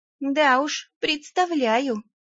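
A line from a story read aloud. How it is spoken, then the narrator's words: Understanding sigh. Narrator (Russian): понимающе вздохнула Велька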